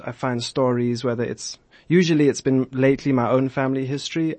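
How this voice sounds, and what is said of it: South African accent. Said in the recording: “I can't help notice. Were you raised in South Africa? ... Joburg, born and raised ... that's my accent.”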